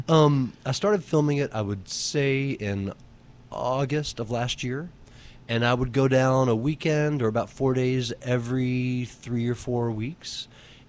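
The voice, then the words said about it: Slight Southern US twang. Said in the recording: “A little southern twang... We accept that you're from the south.”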